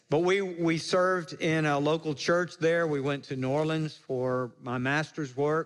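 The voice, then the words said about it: Slight Mississippi Southern accent. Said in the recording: “I grew up in Jackson, Mississippi. You may hear that in my accent a little bit”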